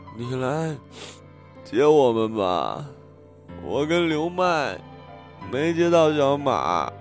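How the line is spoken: Crying on the phone. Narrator (Chinese): 我哭着给张轩打电话

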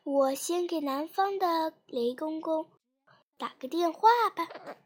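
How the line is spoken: Old man sighing. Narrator (Chinese): 冬爷爷叹了口气说

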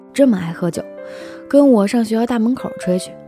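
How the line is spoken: Slight smile. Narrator (Chinese): 张小淼 微微一笑说

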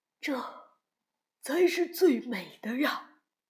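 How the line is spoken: Admiring exclamation in unison. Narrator (Chinese): 都不约而同地赞叹

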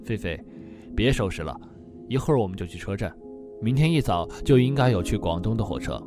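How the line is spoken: Soft, worried. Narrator (Chinese): 苏阳的心里边还是怕耽误了唐杰的病情，轻声说道

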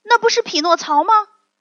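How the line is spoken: Loud puppet voice. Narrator (Chinese): 其中一个小木偶大声说

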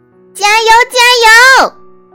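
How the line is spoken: Loud cheering shout. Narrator (Chinese): 我也大声喊

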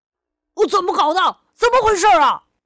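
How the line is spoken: Furious shouting. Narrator (Chinese): 河狸先生是个坏脾气的叔叔 立刻暴跳如雷，对着可可大喊大叫起来

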